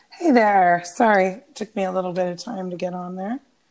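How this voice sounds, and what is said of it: Sick, hoarse, lost voice. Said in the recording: “you still sound sick ... I lose my voice ... I sound worse than I am. I still have a cough”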